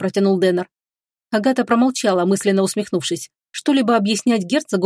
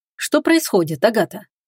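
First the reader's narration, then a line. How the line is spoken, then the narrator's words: Quiet, serious question. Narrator (Russian): негромко и серьезно спросил он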